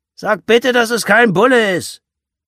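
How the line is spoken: Calling after someone. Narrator (German): Wolfgang rief ihr hinterher

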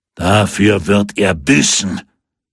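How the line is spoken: Crowd roaring. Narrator (German): brüllte

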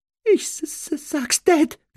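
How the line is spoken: Whimpering. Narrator (German): wimmerte Dudley

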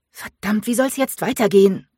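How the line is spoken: Snapped. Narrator (German): fauchte sie Keegan an

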